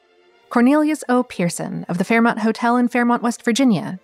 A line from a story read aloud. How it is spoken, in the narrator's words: the man replied